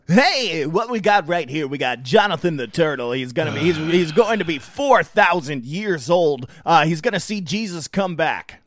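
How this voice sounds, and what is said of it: Forced radio DJ voice. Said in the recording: “you gotta get that DJ voice a little bit more ... That feels forced.”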